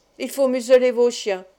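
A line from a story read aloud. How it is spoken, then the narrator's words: Said harshly. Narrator (French): dit-il durement à Vitalis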